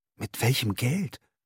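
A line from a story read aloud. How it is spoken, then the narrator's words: Gasping. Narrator (German): keuchte er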